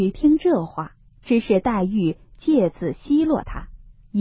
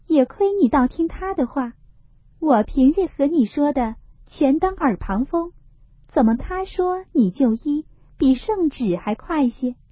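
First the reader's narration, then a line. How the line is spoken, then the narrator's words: Teasing laugh. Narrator (Chinese): 黛玉笑道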